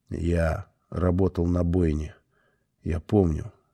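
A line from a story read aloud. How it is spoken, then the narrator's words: Quiet. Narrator (Russian): сказал он тихо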